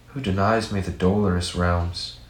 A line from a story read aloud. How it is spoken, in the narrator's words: he said in sighs